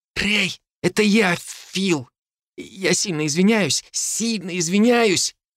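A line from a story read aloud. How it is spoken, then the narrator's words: Fading voice, wheezing cough. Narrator (Russian): Голос Фила внезапно стал тихим, после чего послушались хрипы и надсадный кашель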